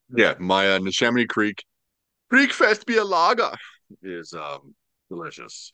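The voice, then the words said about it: Put-on German accent. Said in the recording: “you have to say that with a German accent whenever you talk about Oktoberfest beers”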